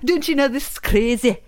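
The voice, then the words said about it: Bad put-on Irish accent. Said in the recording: “I was an Irish character. I do a terrible Irish accent”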